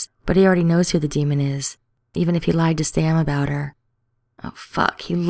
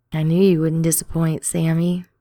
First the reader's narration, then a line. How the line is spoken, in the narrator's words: she purrs